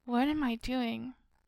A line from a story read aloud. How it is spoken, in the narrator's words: I just sigh